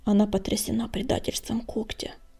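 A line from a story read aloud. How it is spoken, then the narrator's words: Muttering. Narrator (Russian): пробормотал Огнегриф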